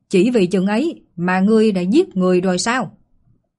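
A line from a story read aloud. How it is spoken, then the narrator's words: Shouting. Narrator (Vietnamese): Yên Xích Hà quát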